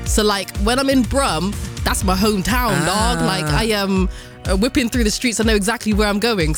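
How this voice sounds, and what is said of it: Strong Bristolian English accent. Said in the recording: “I can't not hear your Bristolian accent ... I can't not hear the Bristolian accent ... I've got this strong Bristolian accent”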